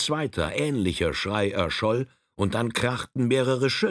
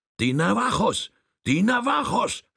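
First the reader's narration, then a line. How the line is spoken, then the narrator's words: Shouting chief. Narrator (German): schrie der Häuptling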